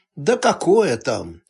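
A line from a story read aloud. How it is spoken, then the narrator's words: Tired reply. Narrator (Russian): устало отозвался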